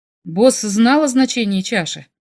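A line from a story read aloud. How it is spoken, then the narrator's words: Plain. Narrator (Russian): спросил я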